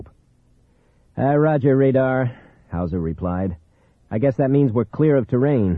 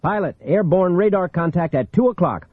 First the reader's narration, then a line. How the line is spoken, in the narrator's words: Hawthorne yelled suddenly over the interphone